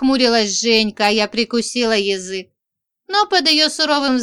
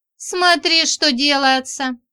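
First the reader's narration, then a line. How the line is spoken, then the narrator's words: Giggling. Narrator (Russian): хихикнула Женька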